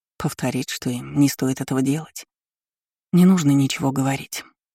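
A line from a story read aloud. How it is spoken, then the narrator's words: Quiet. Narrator (Russian): произнесла тихо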